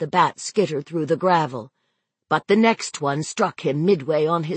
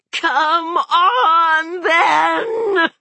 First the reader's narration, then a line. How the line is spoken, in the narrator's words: she shrieked